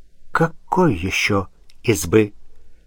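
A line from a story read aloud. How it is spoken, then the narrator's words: Ominous tone. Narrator (Russian): Красовский поддержал зловещим тоном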